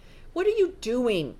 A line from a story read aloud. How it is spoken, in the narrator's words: Grace said irritably